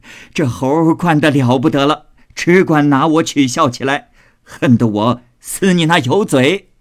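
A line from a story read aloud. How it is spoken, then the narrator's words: Old lady, laughing. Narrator (Chinese): 贾母笑道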